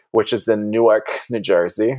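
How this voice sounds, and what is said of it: Put-on New Jersey accent. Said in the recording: “my impression of a New Jersey accent.”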